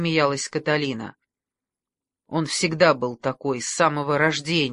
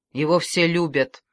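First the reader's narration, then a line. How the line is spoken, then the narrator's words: Gloomy reply. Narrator (Russian): мрачно ответил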